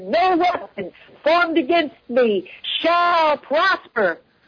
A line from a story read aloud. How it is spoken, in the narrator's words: I shouted